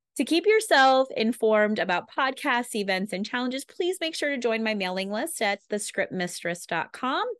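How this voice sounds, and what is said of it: Slightly congested voice. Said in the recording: “sorry, I have a little bit of a cold.”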